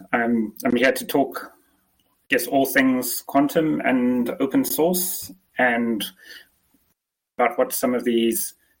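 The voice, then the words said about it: Mixed English and South African accent. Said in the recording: “You sound English, though. ... I'm actually South African ... I've never really had the traditional South African accent. I've had some strange mishmash of an English accent and the South African one.”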